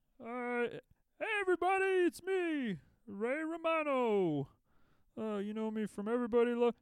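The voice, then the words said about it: Ray Romano impression. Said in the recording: “Someone I can do an impression of... I like Ray Romano.”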